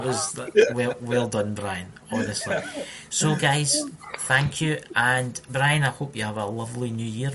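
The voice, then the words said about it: Scottish accent. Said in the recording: “his Scottish accent ... the Scottish accent ... They can't understand me, but they love my accent.”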